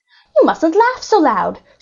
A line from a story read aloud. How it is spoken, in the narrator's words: cried out